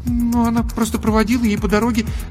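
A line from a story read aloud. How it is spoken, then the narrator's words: Babbling an awkward lie. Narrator (Russian): залепетала Даша, сама понимая, как глупо и смешно выглядит ее ложь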